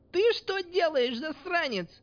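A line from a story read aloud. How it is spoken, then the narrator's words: Shriek. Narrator (Russian): Взвизгнула девушка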